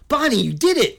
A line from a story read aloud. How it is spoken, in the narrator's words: White exclaimed